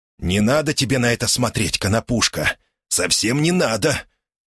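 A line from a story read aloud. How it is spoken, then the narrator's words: Muttering. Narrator (Russian): пробормотал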